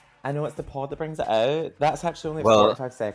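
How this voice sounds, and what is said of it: Usual voice. Nothing is said of it.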